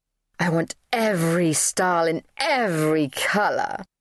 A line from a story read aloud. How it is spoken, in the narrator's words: she purred